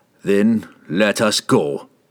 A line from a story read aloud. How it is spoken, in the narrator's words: he growled